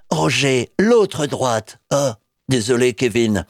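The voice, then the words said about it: Imitates another person's voice. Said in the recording (French): “je prends l'accent de Sylvester Stallone”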